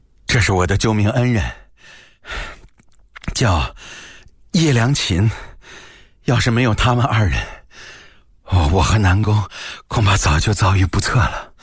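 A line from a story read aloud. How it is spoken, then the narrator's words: Panting heavily. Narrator (Chinese): 他一边说还一边喘着粗气 说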